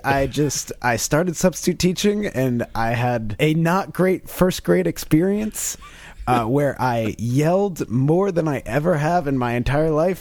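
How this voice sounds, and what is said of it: Hoarse, strained, worn-out voice. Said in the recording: “you sound a little stuffy over there ... my voice is still completely shot ... My voice is definitely going, or it is already gone”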